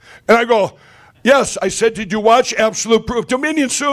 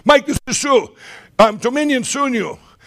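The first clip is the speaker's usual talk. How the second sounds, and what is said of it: Imitated heavy foreign accent. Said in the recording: “she's got an accent. I can hardly understand.”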